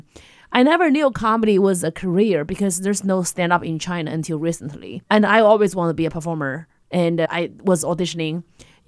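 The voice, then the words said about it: Thick foreign accent. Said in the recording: “having problems because of my accent ... It's just the accent ... They don't understand this thick accent.”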